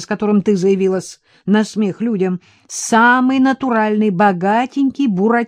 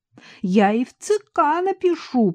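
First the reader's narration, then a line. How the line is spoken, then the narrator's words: Tearful shouting on phone. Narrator (Russian): плачущим голосом кричала в трубку Варвара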